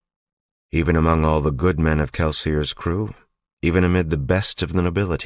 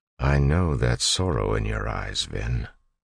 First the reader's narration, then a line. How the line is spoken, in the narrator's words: Elend said softly